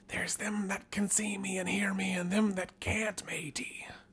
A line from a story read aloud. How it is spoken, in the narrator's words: the skipper leans over and whispers into our ear